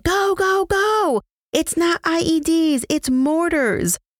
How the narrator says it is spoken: Sergeant Cadet got on the radio yelling

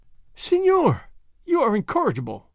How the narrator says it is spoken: the señorita Lolita exclaimed, laughing

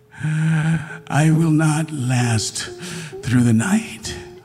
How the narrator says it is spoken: he said, wheezing

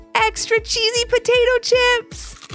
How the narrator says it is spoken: called out Levi

